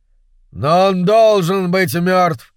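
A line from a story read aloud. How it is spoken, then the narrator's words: Shouting. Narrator (Russian): закричал Серпентрион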